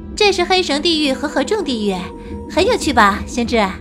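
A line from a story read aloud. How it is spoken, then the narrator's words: Laughing. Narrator (Chinese): 白姬笑道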